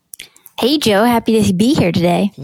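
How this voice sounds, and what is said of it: High helium-like voice impersonating Paula Pant. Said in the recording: “what happened to you, Paula? ... that's what this, is what my voice sounds like on helium ... that voice you just heard is not Paula Pant”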